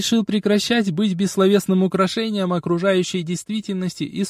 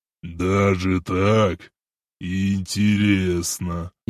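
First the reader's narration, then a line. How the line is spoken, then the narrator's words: Snort, then speaking. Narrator (Russian): Внезапно он хмыкнул и проговорил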